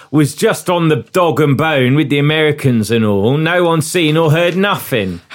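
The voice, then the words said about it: Put-on Cockney accent. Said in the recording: “I'm sweating a bit with the cockney”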